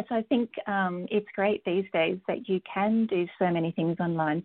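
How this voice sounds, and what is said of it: Australian accent. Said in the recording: “I have an Australian accent. So that's where I I grew up.”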